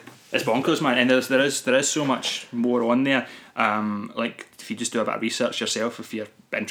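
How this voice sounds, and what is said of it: Usual voice. Nothing is said of it.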